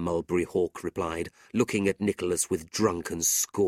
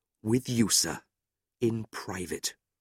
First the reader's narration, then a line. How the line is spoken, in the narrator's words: Nicholas replied quietly